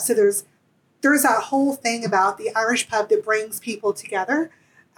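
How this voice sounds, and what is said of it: Southern American accent. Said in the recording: “I am not Irish. If you cannot tell from my accent, I am from the South”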